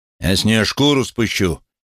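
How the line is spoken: Shout. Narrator (Russian): крикнул Хэнк

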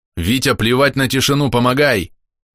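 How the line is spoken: Shouting. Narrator (Russian): крикнул я

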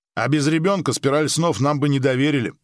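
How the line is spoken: Wry grunt. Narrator (Russian): хмыкнул Ли

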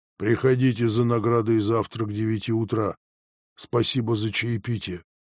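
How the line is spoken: Quiet, bored, changed voice. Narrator (Russian): сказал совсем другим, тихим и скучным голосом

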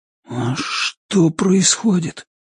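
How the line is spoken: Barely audible question. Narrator (Russian): спросил Ричард еле слышно

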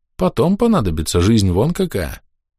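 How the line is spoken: Slightly pensive guess. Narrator (Russian): немного задумчиво предположил

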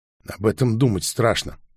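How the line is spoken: Muttered. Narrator (Russian): пробормотала Милана

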